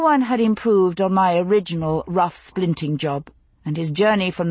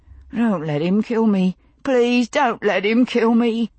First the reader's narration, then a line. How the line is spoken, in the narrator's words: was moaning